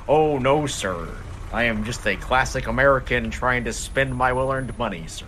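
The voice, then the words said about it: Put-on American accent. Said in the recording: “doing the American accent ... If he keeps up with that accent”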